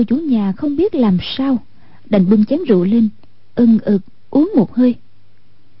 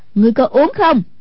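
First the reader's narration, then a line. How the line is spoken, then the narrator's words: Sharp shout. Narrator (Vietnamese): Hoàng Dung quát lên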